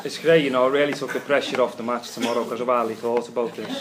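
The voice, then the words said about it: Liverpool-area English regional accent. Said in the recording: “obviously you can tell by my accent I support Everton because people who support Liverpool don't talk with accents like this”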